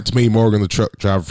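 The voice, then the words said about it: Put-on southern accent. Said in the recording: “I got a southern accent now”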